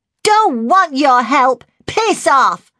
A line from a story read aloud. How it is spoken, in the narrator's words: Jodie covered her ears, screwed up her eyes and screamed for all she was worth